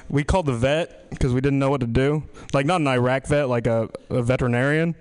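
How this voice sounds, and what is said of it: Strong regional accent. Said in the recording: “my accent wasn't always this strong ... turned my accent up a bit”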